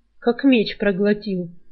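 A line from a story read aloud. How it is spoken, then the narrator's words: Giggling. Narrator (Russian): хихикнул Жар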